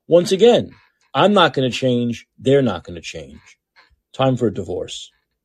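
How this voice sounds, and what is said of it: Brooklyn accent. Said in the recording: “I'm from Brooklyn originally ... Oh, there's the accent.”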